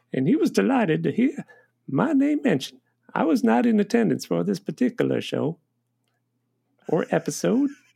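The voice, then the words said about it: Imitates another person's voice. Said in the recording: “This is George's voice.”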